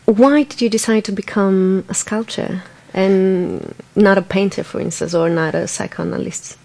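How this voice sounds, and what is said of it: Non-native English accent. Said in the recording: “my bad English accent”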